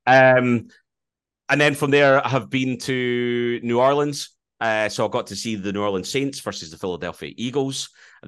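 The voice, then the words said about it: Scottish accent. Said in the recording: “I was a Scottish accent”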